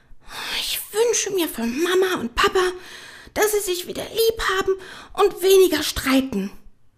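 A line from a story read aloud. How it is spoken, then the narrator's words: Female sigh. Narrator (German): seufzte sie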